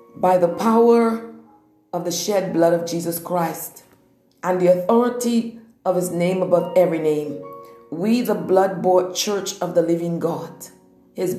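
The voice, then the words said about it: Intense, changed war-mode preaching voice. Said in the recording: “my voice is going to change. Yes, my voice is going to change because when I go into the warfare, my voice absolutely changes. So this declaration is in war mode.”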